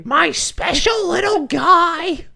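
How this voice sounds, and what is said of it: Marge Simpson cartoon voice impression. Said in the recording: “I've strayed into Marge Simpson almost. ... Why can't I do an accent? ... Please stop doing Marge.”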